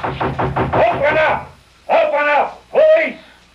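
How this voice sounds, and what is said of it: Shouted police officer impersonation. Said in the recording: “My cop impersonation was perfect.”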